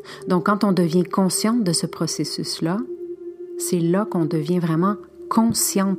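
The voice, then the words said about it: French with a Spanish accent. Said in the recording (French): “mon accent médio espagnol”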